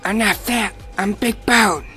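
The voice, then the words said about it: Cartman impression. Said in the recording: “It's Cartman from South Park. ... that was actually gosh. Really good.”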